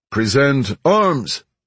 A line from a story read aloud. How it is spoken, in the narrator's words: the leader called out from a runway